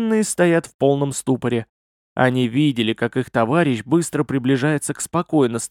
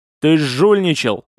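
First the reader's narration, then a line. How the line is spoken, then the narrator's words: Yelling. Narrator (Russian): заорал на меня Вейнур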